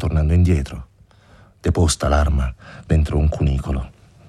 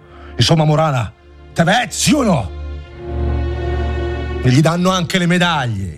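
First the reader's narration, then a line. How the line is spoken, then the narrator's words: Wildly agitated shout. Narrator (Italian): gridò Alfani, in preda a un'eccitazione terribile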